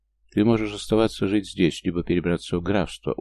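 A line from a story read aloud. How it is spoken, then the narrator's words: Calm. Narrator (Russian): уже спокойно продолжил я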